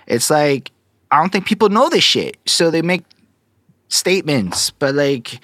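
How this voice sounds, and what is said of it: Montreal accent. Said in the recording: “makes me speak with an accent. I think being a Montreal hip-hop artist for the last decade of my life makes me speak with an accent.”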